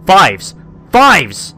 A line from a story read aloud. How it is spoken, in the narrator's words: I heard my brothers shouting as they zoomed away